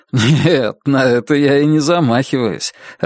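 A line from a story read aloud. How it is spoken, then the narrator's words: Laughing. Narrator (Russian): рассмеялся Алан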